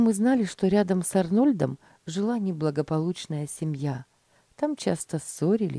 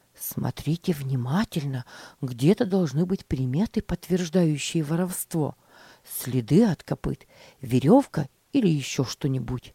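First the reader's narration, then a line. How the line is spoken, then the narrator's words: Whispering. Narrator (Russian): шептал мальчикам Джон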